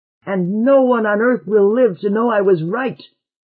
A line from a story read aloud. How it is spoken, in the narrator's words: cried out Lamont, and blinked to keep back the tears